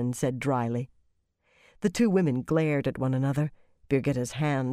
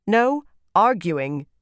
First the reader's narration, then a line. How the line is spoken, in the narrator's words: Elaine said, making her voice sharp